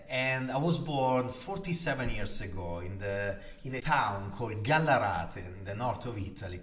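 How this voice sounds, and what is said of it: Heavy Italian accent. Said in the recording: “am Italian ... can hear from my heavy accent”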